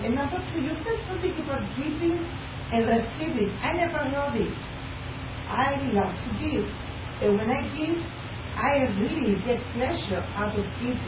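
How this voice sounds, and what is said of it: Speaks with a foreign accent. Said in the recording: “I have an accent that's been here many, many years ... how can you still have an accent? ... Yes, I have an accent.”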